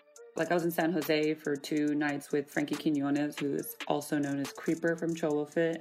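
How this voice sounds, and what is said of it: Raspy, tired voice. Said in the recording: “I'm tired. I feel like I have my little Beyonce voice going. I'm still like, I have like a raspy voice.”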